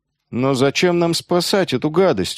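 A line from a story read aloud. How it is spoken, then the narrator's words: Glum question. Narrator (Russian): уныло спросил Яски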